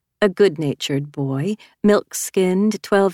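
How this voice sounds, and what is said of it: Usual voice. Nothing is said of it.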